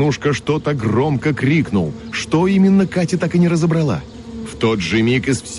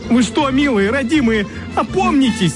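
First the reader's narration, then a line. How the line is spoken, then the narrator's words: Wailing yell. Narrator (Russian): Сладкий гусь, отступая, вопил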